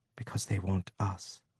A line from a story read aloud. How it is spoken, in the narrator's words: she said softly